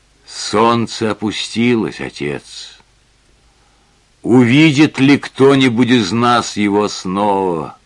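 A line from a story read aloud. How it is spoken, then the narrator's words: Sad speech. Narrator (Russian): Маргарет печально сказала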